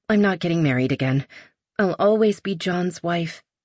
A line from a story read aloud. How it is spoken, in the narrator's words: her suddenly blurting out